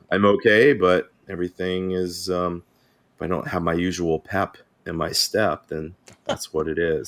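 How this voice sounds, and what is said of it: Weak, strained voice. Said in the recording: “I sound like a little crap, it's because I've been getting over losing my voice.”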